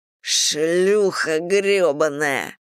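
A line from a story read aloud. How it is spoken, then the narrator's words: Hoarse wheeze. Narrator (Russian): просипел Мэдисон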